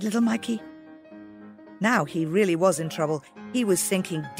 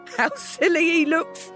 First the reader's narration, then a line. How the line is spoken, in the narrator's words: exclaimed